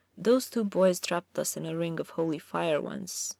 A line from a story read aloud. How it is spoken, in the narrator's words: said softly